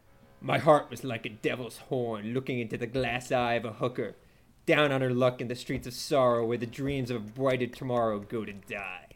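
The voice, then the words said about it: Character voice. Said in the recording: “I'm gonna do the voice too ... that is Hauser”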